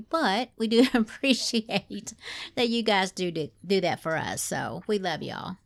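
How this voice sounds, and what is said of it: Southern twang accent. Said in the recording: “my twang”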